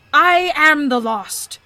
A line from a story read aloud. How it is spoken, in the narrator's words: declared the skeleton fiercely